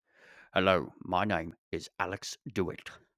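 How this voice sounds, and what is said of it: Imitates another person's voice. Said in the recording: “Maybe speak in his accent. ... I think I got to work on the impression a little more”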